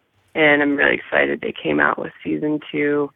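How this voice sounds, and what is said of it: Hoarse, croaky voice. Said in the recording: “I have a frog in my throat.”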